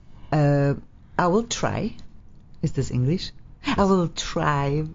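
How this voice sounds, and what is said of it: Attempted American accent. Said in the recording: “Can you speak like an American? ... That's pretty close.”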